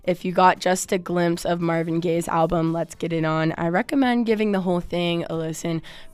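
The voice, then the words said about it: Hoarse voice. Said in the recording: “perhaps without my hoarse voice over it”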